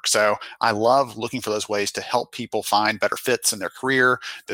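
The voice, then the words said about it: Lovely accent. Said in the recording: “he's got a lovely accent”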